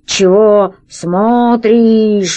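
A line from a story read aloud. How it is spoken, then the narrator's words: Slow, labored monstrous voice. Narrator (Russian): медленно проговорило чудовище, с трудом ворочая красным языком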